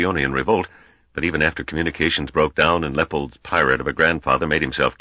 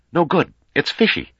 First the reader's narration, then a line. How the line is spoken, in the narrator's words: The young party leader, nervously, said loudly